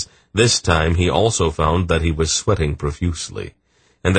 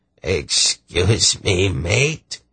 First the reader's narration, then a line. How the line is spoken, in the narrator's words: he said, his voice becoming raspy as a result of his sore throat